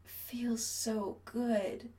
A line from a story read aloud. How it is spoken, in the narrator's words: Chris slurs